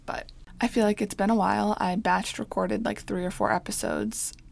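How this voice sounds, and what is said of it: Froggy, throaty voice. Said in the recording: “I've had like a frog in my throat for like weeks now. So if my voice is just a little like annoying ... I'll also probably like have to clear my throat 1,000 times”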